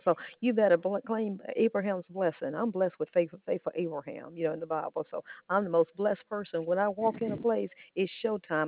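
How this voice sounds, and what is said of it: Very fast talking. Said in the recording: “talk like my granddaughter faster than I can listen”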